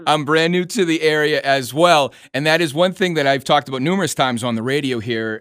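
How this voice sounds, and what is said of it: New England accent. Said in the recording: “You may know by my accent, I'm actually from New England.”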